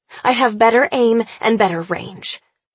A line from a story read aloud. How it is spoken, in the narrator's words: I snarl